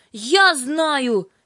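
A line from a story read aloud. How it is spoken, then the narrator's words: Angry exclamation. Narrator (Russian): сердито воскликнула Юлька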